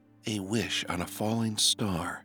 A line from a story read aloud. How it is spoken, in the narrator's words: he whispered